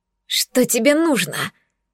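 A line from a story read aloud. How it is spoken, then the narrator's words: Strained wheeze. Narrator (Russian): Захрипела, напрягаясь всем телом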